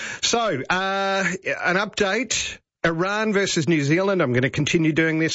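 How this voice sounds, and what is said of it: Usual voice. Nothing is said of it.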